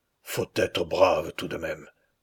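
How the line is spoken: Murmuring. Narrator (French): murmurait Bourrieux

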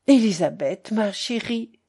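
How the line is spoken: Murmur. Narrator (French): murmurait Madame Georges

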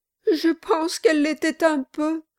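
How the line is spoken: Sobbing. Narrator (French): dit Mistress Kilp avec un sanglot

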